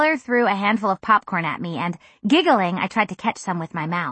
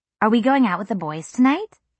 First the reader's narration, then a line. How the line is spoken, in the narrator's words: Annika asked